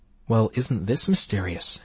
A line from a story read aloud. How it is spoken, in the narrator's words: she whispered